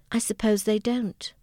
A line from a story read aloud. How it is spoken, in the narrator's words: Diana said sadly